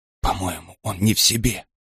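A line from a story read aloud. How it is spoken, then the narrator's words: Tearful whisper. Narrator (Russian): прошептала Ларин, пытаясь не заплакать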